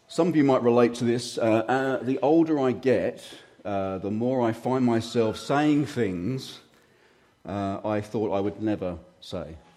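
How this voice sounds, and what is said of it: Slightly hoarse, croaky throat. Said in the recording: “I've got a little bit of a frog in my throat this morning, so forgive me if I cough and splutter.”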